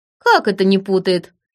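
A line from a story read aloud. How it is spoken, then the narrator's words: Sudden giggle. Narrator (Russian): вдруг хихикнула Сильвия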